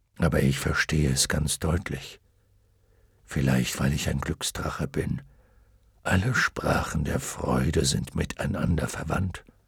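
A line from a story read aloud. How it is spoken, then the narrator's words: Murmured. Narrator (German): raunte Fuchur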